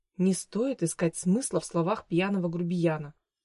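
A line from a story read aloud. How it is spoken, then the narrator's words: Whispered. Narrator (Russian): прошептала Габи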